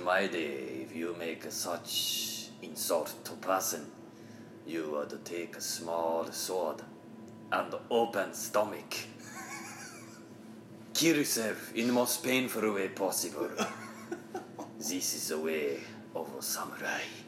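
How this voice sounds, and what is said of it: Put-on samurai-style accent. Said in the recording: “I love the accent so much ... samurai”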